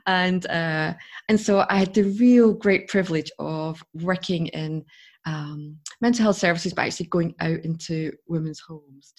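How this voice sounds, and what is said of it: Scottish accent. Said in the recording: “I come from Scotland, as you can tell by my accent.”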